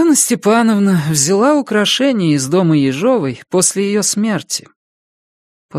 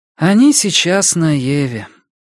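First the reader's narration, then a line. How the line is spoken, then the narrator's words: Tired. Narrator (Russian): устало закончила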